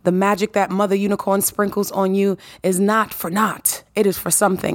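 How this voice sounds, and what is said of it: Raspy voice. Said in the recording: “can you hear the rasp in my voice?”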